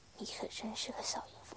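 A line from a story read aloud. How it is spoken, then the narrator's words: Soft voice. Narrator (Chinese): 君 轻声道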